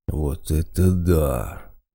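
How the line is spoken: Drawn-out words. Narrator (Russian): протянул Водяной

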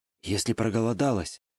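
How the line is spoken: Fading whisper, young man. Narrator (Russian): все сильнее затихающим голосом начал шептать парень куда-то ей в шею

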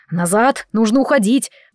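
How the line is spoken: Roaring close. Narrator (Russian): взревел Дэвид возле моего уха

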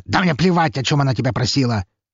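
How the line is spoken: Sharp. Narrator (Russian): резко сказал он

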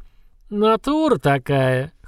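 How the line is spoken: Short laugh. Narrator (Russian): хохотнул тот

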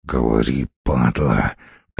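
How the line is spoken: Hissed. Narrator (Russian): прошипел Костолом

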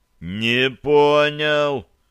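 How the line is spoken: Drawled. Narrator (Russian): протянул я

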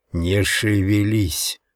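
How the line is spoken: Hiss. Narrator (Russian): прошипел я

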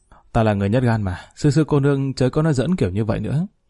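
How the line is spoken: Forced laughing reluctance. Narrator (Vietnamese): Lý Kỳ ha hà mỉm cười vài tiếng nhưng vô cùng miễn cưỡng nói

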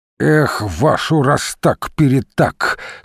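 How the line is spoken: Forced through teeth. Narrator (Russian): сквозь зубы выдавил он

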